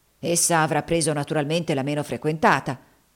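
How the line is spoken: Talking aloud to himself. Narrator (Italian): disse Haley, parlando a voce alta fra sé

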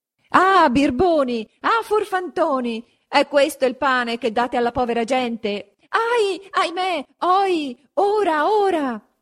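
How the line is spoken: Shouting from below. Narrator (Italian): s'urlava di giù

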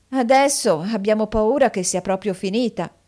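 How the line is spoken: Group sighing. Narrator (Italian): sospirarono

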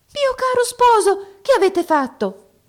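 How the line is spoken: Princess, surprised exclamation. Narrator (Italian): esclamò la principessa nella sua sorpresa

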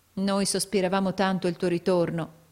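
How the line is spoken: Plain. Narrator (Italian): disse Caterina

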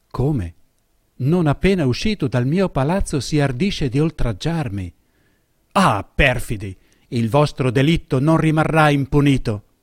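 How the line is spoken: Exclaimed to himself. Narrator (Italian): esclamò fra sé

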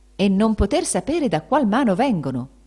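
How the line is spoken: Exclamation. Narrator (Italian): esclamava Benedetto

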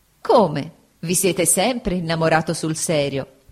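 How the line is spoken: Laughing. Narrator (Italian): disse Agnese, sempre ridendo

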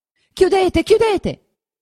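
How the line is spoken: Shouting. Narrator (Italian): gridava Lucia

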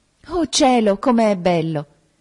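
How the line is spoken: Exclamation. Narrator (Italian): esclamò

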